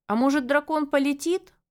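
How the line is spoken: Frightened yell. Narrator (Russian): завопил напуганный Селим

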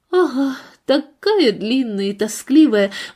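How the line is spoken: Sighing. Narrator (Russian): вздохнула миссис Морли

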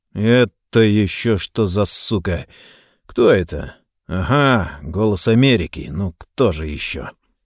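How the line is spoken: Quiet. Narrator (Russian): негромко сказал насторожившемуся залу

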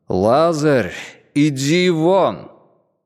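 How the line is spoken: Loud call. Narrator (Russian): Иисус воззвал громким голосом

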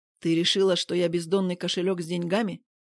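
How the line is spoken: Rude curt remark. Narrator (Russian): грубо бросает Вадим

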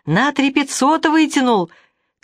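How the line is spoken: Shout from window. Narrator (Russian): крикнула из окна роддома

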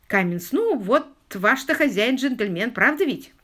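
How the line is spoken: Snorting. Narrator (Russian): Он хмыкнул

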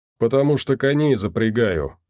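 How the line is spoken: Short laugh. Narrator (Russian): хохотнул Долговец

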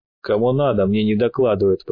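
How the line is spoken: Grumbling. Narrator (Russian): проворчал

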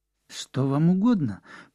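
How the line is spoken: Trembling voice. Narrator (Russian): произнесла она дрожащим голосом

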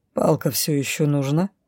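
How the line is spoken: Mocking, slightly nervous. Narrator (Russian): Насмешливо, но при этом несколько нервно съязвил Ригар

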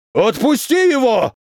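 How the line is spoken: Yelling. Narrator (Russian): заорал воздушник

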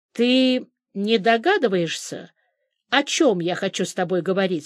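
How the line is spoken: Plain. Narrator (Russian): спросил Зимарев

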